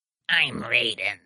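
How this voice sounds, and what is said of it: Put-on character voice. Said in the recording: “That is how he talks... I'm doing a voice.”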